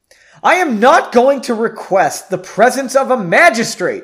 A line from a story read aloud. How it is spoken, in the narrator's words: exclaimed the exasperated Frederick